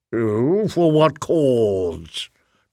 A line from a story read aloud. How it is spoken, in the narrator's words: Tregathin rumbled, splashing feebly